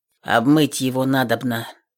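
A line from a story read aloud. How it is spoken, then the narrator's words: Muffled, hollow. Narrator (Russian): глухо сказал Степан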